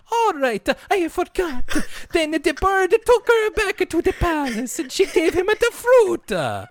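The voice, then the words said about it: Impression of Pepe. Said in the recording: “my one take Pepe impression”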